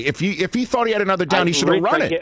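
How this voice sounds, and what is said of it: Raised, loud emphatic voice. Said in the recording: “This is my New York way of raising my voice.”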